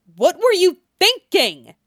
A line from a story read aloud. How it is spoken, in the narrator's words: he snaps